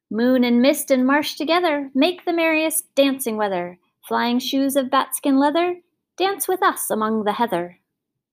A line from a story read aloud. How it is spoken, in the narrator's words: the will-o'-the-wisps called out